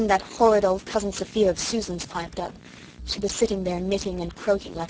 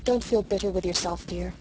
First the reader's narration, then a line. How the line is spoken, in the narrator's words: Mother said gently